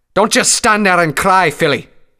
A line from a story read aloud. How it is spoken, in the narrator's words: roared